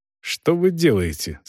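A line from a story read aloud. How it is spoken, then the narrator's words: Irritated. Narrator (Russian): спросил Волков раздраженно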